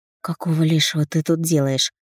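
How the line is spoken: Hoarse, awkward. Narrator (Russian): Сиплю так глупо

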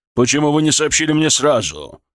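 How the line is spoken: Barked. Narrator (Russian): рявкнул он

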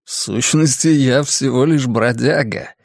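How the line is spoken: Pronouncing, then laughing. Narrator (Russian): изрек он и рассмеялся

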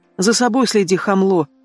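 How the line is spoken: Grumbled reply. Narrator (Russian): буркнула в ответ

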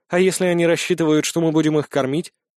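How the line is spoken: Sigh. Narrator (Russian): Трой вздохнул

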